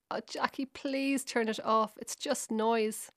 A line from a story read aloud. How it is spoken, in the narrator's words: My dad pleaded